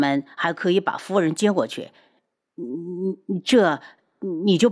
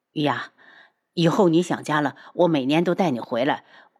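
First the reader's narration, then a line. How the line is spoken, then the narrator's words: Hurried. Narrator (Chinese): 黄万和……急忙道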